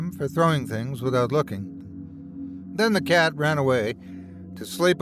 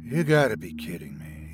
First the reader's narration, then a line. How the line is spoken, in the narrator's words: he said quietly